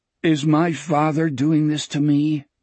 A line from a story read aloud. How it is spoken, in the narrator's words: Richard asked miserably